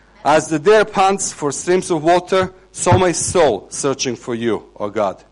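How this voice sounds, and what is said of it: Eastern European accent. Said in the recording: “In my Eastern European accent, with not very good English”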